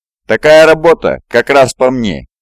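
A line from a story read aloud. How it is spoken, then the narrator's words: Giggling. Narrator (Russian): хихикнула Мэтт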